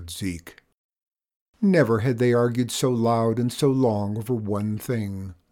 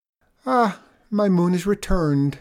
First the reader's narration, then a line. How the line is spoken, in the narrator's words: sighed Abel